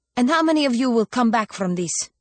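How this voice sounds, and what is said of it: Hard, stern voice. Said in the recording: “asked in a hard voice.”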